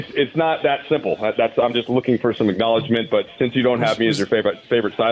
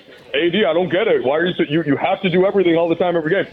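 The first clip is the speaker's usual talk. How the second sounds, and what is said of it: Mocking voice of clueless basketball pundit. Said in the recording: “Was that your Charles Barkley impression about what he said about AD? ... That's your ignoramus basketball take impersonation. ... That's my, like, doesn't watch the games completely.”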